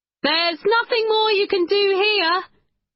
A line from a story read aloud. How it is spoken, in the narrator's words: he said loudly